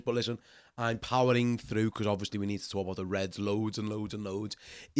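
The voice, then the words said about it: Congested voice from a cold. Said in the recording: “you sound a little bit different ... I'm a nursing a little bit of a cold, so my voice sounds a bit strange”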